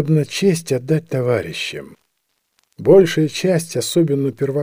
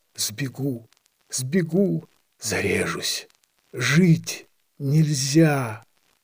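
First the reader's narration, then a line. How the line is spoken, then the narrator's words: Desperate whisper. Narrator (Russian): Жаль, и страшно было слышать, как он шептал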